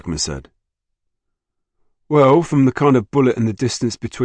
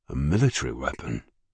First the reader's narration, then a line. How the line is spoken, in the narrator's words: murmured Jackman